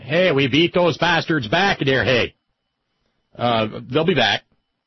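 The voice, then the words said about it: Switches to a put-on regional accent. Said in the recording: “oh, I'm sorry, wrong accent. ... See, my whole world is Southern.”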